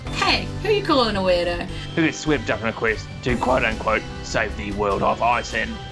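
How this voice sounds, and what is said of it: New Zealand accent. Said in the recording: “people with New Zealand accents”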